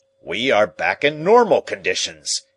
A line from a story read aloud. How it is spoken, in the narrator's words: he cried